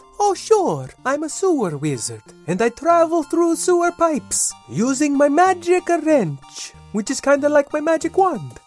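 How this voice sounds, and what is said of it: Cartoon character voice, weird Italian-Irish accent. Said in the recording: “as for your accent... I'm Italian on my mother's side and Irish on my father's side... I don't talk like that... a weird accent”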